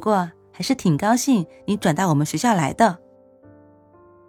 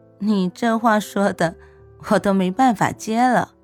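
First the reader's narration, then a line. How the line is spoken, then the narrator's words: Smiling. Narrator (Chinese): 莫西西 笑着对颜玉说道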